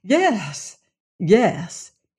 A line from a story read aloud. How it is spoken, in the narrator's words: he said eagerly